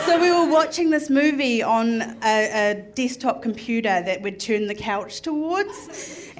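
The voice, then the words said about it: Strong accent. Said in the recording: “my accent is so strong”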